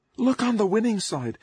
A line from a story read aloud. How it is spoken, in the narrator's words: Basher said in my ear over the howl of the wind